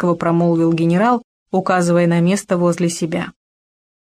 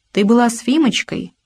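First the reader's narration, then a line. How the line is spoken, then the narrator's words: Soft. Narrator (Russian): мягко продолжил он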